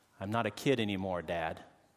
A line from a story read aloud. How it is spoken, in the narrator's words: she said evenly